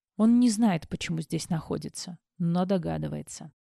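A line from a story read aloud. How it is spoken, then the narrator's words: Tired. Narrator (Russian): устало произнес Максвелл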